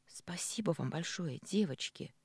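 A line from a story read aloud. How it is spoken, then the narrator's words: Sincere whisper. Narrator (Russian): искренне прошептала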